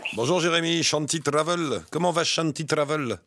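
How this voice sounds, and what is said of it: Put-on Indian accent. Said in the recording (French): “je suis avec l'accent... Avec l'accent indien”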